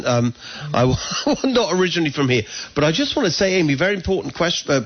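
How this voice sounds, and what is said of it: English accent. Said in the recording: “we moved here from England, as people can hear my accent.”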